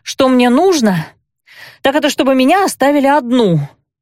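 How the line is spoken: Breathed out. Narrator (Russian): Выдохнула я

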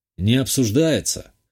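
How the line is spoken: Wry snort. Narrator (Russian): хмыкнул я

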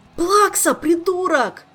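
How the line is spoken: Howling. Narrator (Russian): взвыл он

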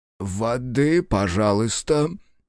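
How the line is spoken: Hoarse male reply. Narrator (Russian): сипло ответил эльфийский князь

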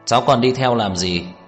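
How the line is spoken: Cold question. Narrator (Vietnamese): Tưởng Vĩ Quốc lạnh lùng hỏi

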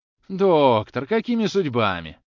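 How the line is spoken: Exclaimed. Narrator (Russian): воскликнул Обломов

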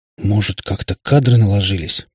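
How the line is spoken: Stunned mutter. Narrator (Russian): пробормотала ошарашенная Катя

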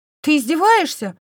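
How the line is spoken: Exclaiming. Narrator (Russian): воскликнул он

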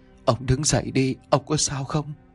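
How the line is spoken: Trembling old woman. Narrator (Vietnamese): Giọng của bà run rẩy mà nói

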